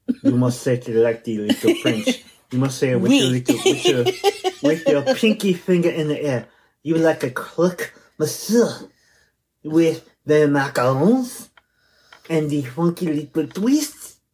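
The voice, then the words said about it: Poor fake French accent. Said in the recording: “your French accent is terrible. ... It is bad.”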